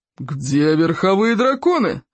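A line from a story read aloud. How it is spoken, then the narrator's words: Irritated roar. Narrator (Russian): раздраженно взревел Плевак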